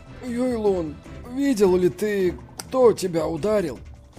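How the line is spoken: Sad question. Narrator (Russian): Печальным голосом он спросил

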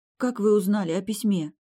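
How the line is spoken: Deadened voice. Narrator (Russian): помертвевшим голосом спросила

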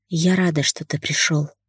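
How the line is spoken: Whisper. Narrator (Russian): прошептала

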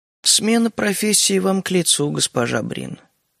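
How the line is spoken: Queen's muffled remark. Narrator (Russian): заметила королева глухо

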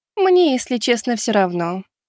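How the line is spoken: Calm. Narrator (Russian): спокойно проговорила Лиза

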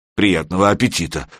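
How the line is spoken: Muttered. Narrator (Russian): пробурчал Серега

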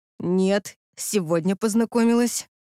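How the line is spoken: Trembling, fearful. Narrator (Russian): дрожащим голосом ответила Крис, понимая, что за это точно прилетит

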